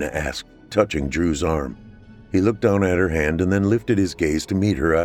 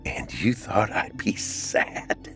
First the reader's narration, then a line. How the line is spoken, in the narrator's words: Trina said with a chuckle